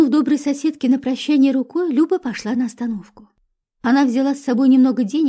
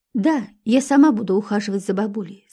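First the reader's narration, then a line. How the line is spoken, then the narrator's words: Plain. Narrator (Russian): сказала Люба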